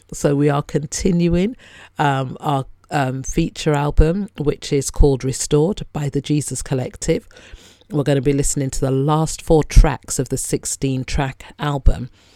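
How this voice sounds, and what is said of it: Strained voice not working properly. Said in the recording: “as you can hear, my voice is just not working properly today”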